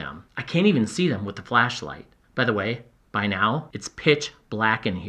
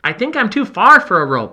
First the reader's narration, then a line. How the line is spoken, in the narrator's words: I yell back